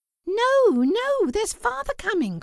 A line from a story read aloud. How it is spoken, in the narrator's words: cried the two young Cratchits